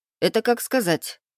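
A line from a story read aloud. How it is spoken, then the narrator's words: Wry grunt. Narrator (Russian): хмыкнул я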